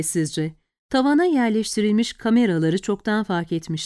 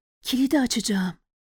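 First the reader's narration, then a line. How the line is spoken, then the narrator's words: Whispering. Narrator (Turkish): diye fısıldadı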